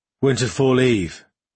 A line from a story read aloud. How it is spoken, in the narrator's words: Brother Lerniel said in his perennially dull voice